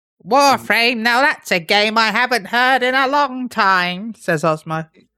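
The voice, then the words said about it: Old man or witch character voice. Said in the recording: “I don't know why I gave him that voice. ... Osmo's voice. It's an old man. Like an old witch.”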